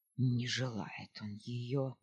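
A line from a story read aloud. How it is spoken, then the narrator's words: Pleased grumbling. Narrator (Russian): ворчал Челган, с удовольствием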